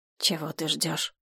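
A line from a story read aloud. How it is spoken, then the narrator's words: Quiet companion. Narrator (Russian): тихо проговорил его спутник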